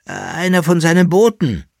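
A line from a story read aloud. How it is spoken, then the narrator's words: Soft groaning. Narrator (German): sagte der Kaiser, der den Teufel nicht gern beim Namen nannte, mit einem leisen Stöhnen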